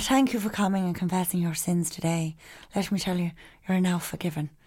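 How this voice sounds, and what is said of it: Put-on Irish accent. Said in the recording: “You need to do that in an Irish accent ... I think that's probably the best accent you've done.”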